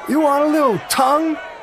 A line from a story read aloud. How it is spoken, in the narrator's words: shouted with a drunken drawl